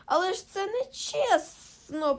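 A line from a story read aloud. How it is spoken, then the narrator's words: Hissed. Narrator (Ukrainian): просичав Голлум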